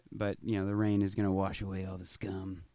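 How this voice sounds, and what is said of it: Imitates another person's voice. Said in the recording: “my Robert De Niro impression”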